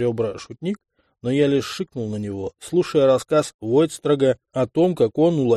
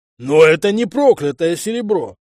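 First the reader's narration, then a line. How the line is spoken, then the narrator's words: Sudden full-throated bellow. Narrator (Russian): Заорал вдруг во всю свою луженную глотку Арчи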